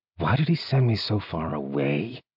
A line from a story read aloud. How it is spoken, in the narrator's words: Zeal muttered